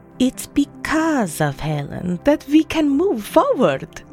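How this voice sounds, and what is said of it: Precise Swiss accent. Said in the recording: “in her precise Swiss accent”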